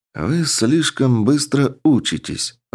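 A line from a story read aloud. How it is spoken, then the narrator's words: Thoughtful. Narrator (Russian): задумчиво произнес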